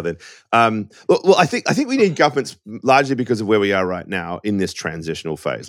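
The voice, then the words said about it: Australian accent. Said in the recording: “This accent is not an American accent... I'm an Aussie”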